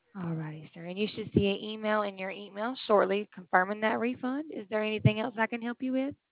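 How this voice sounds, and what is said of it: Slight Southern US accent. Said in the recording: “you have a little accent there ... I'm from Alabama ... we're Southerners down here”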